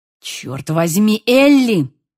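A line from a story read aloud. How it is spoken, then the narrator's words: Angry male growl. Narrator (Russian): зарычал он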